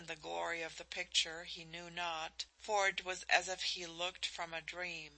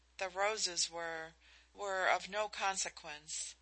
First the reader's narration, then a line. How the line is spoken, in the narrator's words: she faltered